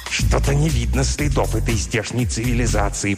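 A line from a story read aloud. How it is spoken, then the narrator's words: Irritated hiss. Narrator (Russian): прошипел, наконец, Плагдрк, обращаясь к Нгтрксу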